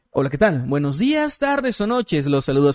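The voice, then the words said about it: Radio announcer voice. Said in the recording (Spanish): “voz de locutor”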